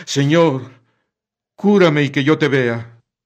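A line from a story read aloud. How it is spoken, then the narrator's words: Old man exclaiming. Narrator (Spanish): exclama un anciano, ciego desde niño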